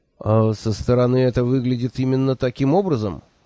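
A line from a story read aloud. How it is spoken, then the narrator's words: Gloomy inquiry. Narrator (Russian): мрачно осведомился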